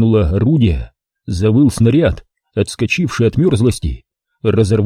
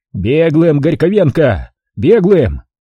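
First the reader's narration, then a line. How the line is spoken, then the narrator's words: Joyful shout. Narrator (Russian): закричал обрадованно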